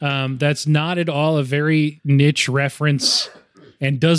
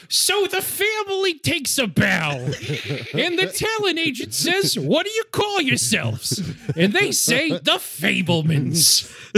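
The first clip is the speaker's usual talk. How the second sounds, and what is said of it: Imitates another person's voice. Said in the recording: “bad impression ... That's Gilbert Godfrey from The Aristocrats ... Gilbert Godfrey doing”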